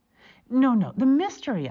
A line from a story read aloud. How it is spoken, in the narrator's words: I cried